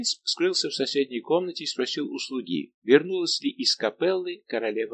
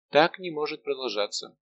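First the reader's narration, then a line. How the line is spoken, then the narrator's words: Sighing. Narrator (Russian): Анна Австрийская вздохнула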